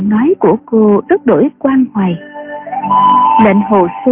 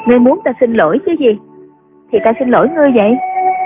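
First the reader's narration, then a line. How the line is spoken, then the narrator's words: Woman, smiling. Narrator (Vietnamese): Cô gái mỉm cười nói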